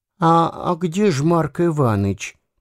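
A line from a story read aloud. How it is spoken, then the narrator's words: Quiet question. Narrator (Russian): тихо спросил Дюковский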